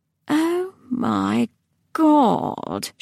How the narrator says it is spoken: she said softly

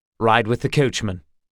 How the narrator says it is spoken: said Geralt curtly

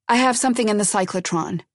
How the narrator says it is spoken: she said irritably

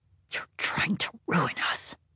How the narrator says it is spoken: In the most venomous whisper she could summon, she said

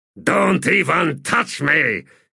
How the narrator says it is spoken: he growled

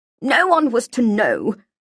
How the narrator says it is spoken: Feely groaned

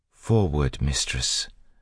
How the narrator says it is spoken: Sazed said in a soothing voice

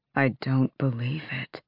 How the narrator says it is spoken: Lorkin whispered

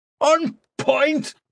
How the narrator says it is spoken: Mannering shouted

